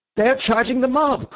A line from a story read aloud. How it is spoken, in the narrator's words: cried, in ecstasy or alarm